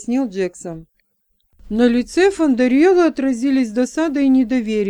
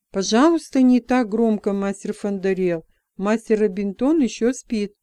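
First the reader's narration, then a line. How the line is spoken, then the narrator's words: Quiet. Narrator (Russian): тихо проговорил Джексон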